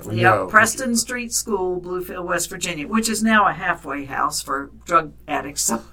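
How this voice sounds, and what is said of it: West Virginia accent. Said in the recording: “That was in Bluefield, West Virginia... See, we know your accent.”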